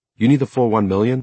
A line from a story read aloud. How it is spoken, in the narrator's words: LaRue asked impatiently